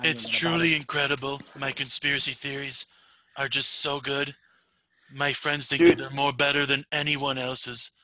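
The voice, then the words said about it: Imitates another person's voice. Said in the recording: “Your Trump, dude, your Trump impression is so good.”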